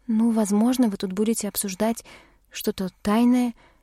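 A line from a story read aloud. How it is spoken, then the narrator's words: Uncertain. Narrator (Russian): предположила неуверенно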